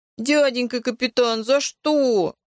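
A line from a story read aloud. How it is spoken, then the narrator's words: Whimpering. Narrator (Russian): захныкал Толик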